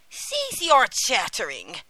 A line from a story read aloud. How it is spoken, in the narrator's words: cried the old witch angrily